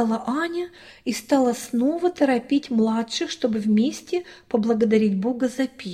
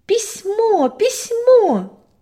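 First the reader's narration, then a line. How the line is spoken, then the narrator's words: Joyful shout. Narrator (Russian): радостно закричала Аня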